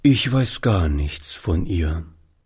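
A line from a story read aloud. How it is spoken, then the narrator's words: Sad answer. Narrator (German): antwortete Oliver traurig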